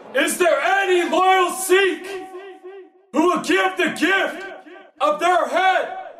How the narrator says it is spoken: roared

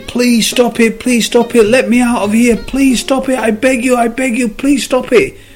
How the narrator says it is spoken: The cop started screaming

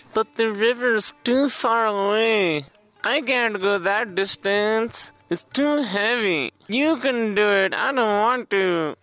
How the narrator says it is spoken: the other children, they whined

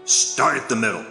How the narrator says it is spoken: in a gruff voice said

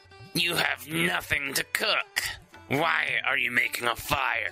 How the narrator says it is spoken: the troll snarled

